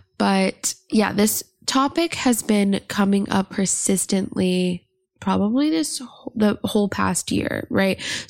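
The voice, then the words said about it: Slightly weird, cold-affected voice. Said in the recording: “I'm recovering from a cold right now, so my voice is a little weird”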